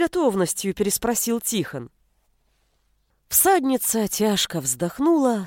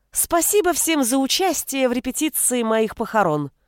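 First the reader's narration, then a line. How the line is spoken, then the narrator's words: Loud announcement. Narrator (Russian): громко объявила она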